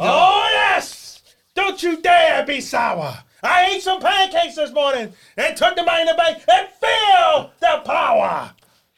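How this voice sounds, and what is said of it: Impression of wrestler Big E. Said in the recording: “D, it's been a while since we heard you do a voice. And since Big E won, It's only right that you give us the power of positivity, baby.”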